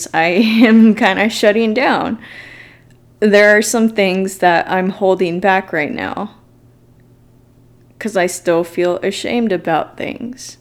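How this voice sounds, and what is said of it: Scared, shaky voice. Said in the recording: “I get scared, like right now. You probably hear it in my voice.”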